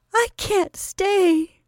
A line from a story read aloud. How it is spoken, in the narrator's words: she sobbed